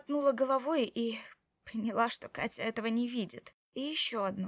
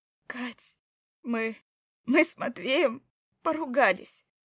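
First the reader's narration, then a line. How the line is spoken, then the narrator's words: Forced out, strained. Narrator (Russian): выдавила я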